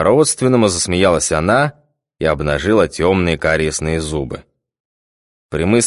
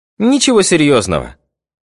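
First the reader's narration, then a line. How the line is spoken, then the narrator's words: Cheerful reply. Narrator (Russian): весело отозвалась брюнетка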